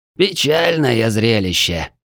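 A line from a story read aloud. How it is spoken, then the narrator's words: Heavy-sighing lament. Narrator (Russian): тяжело вздохнув, посетовал знакомый голос за спиной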